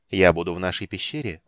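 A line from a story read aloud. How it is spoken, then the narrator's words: Cold, said by a mage. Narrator (Russian): холодно проговорил маг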